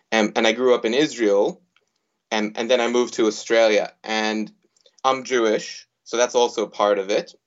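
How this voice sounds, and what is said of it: American accent. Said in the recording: “as you can probably hear, I have an American accent when I speak in English”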